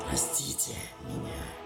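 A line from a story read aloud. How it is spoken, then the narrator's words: Whispered. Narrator (Russian): прошептала Гарона из видения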